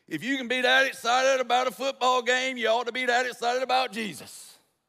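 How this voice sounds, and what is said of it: Exaggerated preacher voice. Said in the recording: “that's my preacher voice.”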